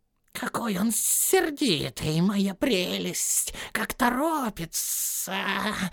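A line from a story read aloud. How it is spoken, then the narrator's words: Hissed. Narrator (Russian): прошипел Голлум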